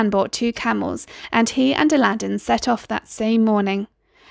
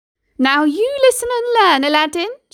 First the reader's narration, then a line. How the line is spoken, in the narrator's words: she called out